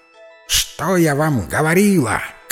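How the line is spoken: Owl's shout. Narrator (Russian): крикнула сова

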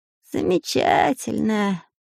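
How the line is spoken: Sad, several voices. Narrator (Russian): грустно ответили шпионы

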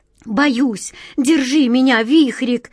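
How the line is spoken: Frightened babbling. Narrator (Russian): лепетала она

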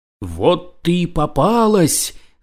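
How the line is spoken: Woman shouting. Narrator (Russian): закричала женщина

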